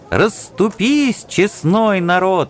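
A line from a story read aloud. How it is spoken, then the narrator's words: Cheerful shout. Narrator (Russian): весело кричал Василий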